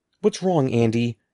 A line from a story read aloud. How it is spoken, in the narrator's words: Evan called down to her in a trembling voice